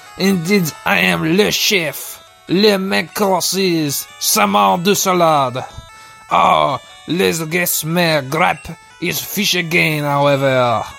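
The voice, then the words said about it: Put-on exaggerated French accent. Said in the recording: “this dumb accent project I've embarked on ... French chefs, because they speak with French accents”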